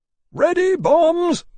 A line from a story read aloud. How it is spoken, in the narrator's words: Lawrence shouted